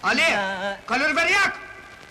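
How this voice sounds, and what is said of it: Shouting. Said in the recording (Turkish): “Ne bağırıyorsunuz be?”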